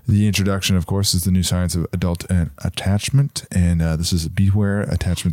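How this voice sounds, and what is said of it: Soft, soothing ASMR-like voice. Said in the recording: “you have a very ASMR voice... I could fall asleep to your voice”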